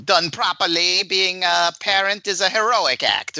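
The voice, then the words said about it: Edna Mode impression. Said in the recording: “pretty good Edna ... pretty good Edna mode impression”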